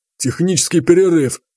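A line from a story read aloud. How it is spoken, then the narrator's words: Bald man's snort. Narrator (Russian): хмыкнул лысый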